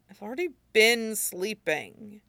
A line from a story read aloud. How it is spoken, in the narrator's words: he grumbles